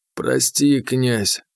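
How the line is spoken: Hoarse. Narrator (Russian): хрипло сказал хвороба

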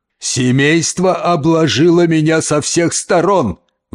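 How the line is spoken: Wailing. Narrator (Russian): взвыл дядя Джон

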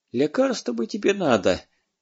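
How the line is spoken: Sorrowful sigh. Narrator (Russian): горестно вздохнула хозяйка

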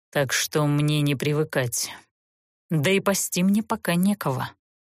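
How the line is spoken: Pale, through gritted teeth. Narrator (Russian): бледнее процедил

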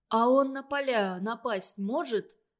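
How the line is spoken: Plain. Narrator (Russian): спросил Санька

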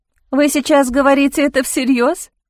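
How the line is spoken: Mocking female voice. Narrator (Russian): Женский голос прозвучал насмешливо

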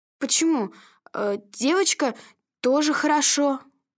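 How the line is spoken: Uncertain. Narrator (Russian): неуверенно произнес Павлик

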